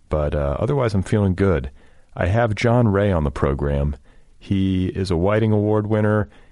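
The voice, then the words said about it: Congested voice from a cold. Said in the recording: “I have a bit of a cold. I don't know if you can hear it in my voice. I'm a bit congested.”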